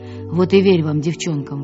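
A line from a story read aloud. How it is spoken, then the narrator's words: Grumbling. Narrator (Russian): ворчал он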